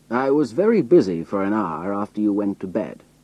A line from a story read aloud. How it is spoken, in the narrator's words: he said